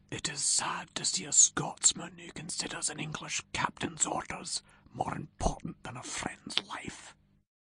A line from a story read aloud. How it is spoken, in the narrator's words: Rob Roy whispered to Ewan